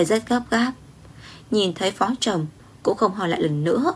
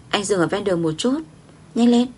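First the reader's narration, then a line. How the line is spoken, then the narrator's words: Frightened. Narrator (Vietnamese): Ngô Quỳ Vãn sợ hãi nói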